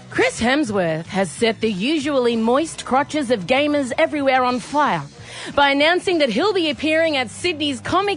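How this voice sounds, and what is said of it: Mock news reporter voice. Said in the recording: “Why can't I be a news reporter? ... M super important news report ... I'm going to do my voice.”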